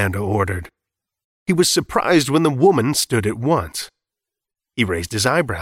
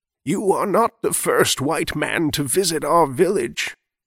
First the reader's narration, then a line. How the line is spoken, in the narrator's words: she answered, her voice like dry leaves rustling in the wind